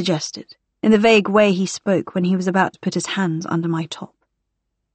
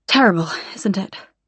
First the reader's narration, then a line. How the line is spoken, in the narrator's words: I murmured